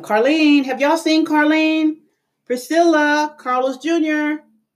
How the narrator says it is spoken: I called out to them

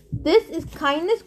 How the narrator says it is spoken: Grover yelled

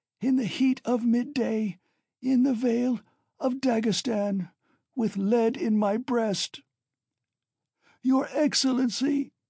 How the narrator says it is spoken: she wailed suddenly with a heart-rending scream and a flood of tears

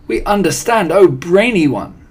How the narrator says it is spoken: cried the audience

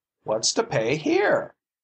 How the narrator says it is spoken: he cried

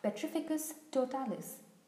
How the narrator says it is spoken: she cried

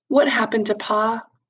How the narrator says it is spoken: I said very softly

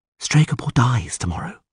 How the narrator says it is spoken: she said quietly

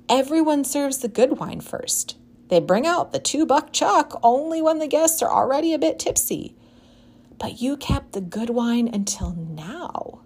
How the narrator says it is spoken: the wedding planner exclaimed to the groom

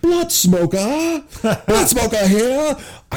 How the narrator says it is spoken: loudly

